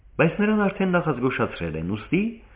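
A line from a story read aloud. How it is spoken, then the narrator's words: Added with a smile. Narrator (Armenian): ավելացրեց նա ժպտալով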